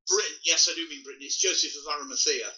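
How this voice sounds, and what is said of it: British accent. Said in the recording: “people can tell by your accent, but I think when you say here, you mean Britain.”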